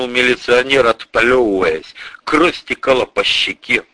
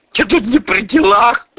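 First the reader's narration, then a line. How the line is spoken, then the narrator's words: Whimpering repetition. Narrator (Russian): повторил лжеофицер, поскуливая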